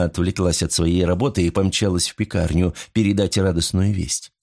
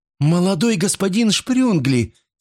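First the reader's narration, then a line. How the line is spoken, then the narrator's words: Exclaiming young woman. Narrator (Russian): воскликнула девушка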